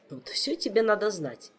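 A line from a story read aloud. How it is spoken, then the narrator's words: Snort turning serious. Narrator (Russian): хмыкнул мистралиец, мигом посерьезнев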